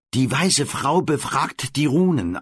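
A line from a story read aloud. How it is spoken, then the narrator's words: Plain. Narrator (German): antwortet sie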